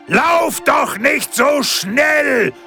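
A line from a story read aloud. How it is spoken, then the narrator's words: Evil forest spirit calling. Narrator (German): rief der böse Waldgeist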